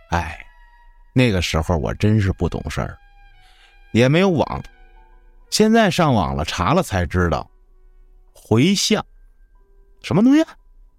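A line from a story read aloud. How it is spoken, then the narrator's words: Sighing mother. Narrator (Chinese): 老妈叹了口气说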